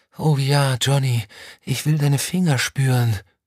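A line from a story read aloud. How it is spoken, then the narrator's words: Moaning. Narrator (German): stöhnte sie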